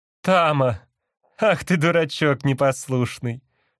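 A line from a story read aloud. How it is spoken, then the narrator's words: Laughing woman. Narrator (Russian): сказала женщина, но при этом засмеялась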